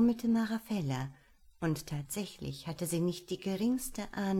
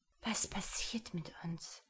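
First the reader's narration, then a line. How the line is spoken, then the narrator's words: Breathy whisper. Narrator (German): hauchte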